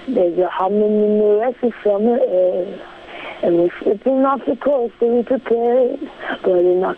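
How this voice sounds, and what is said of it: Imitates another person's singing voice. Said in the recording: “can do a Lord impersonation”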